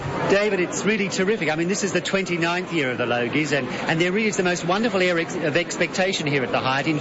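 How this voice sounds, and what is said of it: Very posh upper-class accent. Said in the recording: “Where did that voice come from? Oh, dear, I was terribly posh, wasn't I? ... extraordinary posh”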